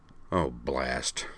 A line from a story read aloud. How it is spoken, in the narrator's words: Cyrano grumbled